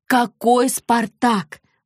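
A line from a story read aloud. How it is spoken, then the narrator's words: Exclaiming. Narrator (Russian): воскликнула она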